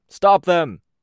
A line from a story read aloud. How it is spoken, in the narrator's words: Prancer called out to Moose